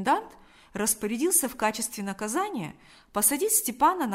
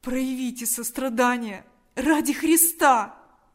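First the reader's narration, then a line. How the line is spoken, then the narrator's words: Desperate pleading. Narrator (Russian): взмолился Степан с новым отчаянием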